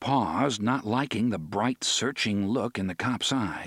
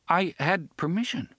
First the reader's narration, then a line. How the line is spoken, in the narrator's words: concluded uneasily